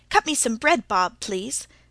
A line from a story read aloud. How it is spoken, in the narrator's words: said Tilly hastily